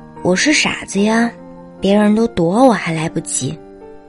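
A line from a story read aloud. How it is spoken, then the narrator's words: Laughing. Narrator (Chinese): 我笑着说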